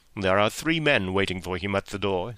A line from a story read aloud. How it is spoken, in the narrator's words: said Holmes